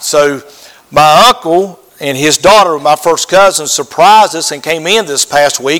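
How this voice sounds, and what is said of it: Strong rural hick accent, unclear enunciation. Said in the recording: “she couldn't understand me because of my hick accent, and I don't enunciate very good sometimes”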